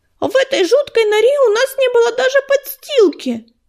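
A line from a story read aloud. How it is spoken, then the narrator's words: Frightened squeak. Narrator (Russian): пропищала Пушинка, испуганно округлив глазки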